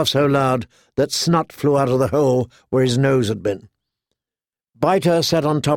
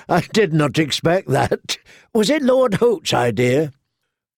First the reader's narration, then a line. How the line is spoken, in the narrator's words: Rorg began to laugh